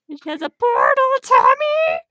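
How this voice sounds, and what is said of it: Cartoon character voice. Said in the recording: “my Glendale impression. ... It was pretty good”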